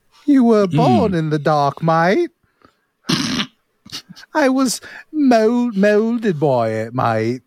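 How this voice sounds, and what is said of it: Put-on British accent. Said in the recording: “What happened to your accent, mate? ... Are you telling me you're not a bona fide Brit?”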